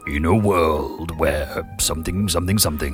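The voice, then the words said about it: Deep movie-trailer announcer voice. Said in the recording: “I should have that deep voice chap doing this ... Oh, it's quite sexy”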